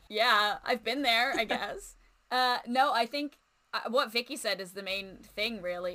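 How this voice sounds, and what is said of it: Strong American accent. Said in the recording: “hard to tell by the highly American accent”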